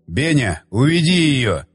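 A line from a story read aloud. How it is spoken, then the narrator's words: Shout. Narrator (Russian): крикнул Щербатин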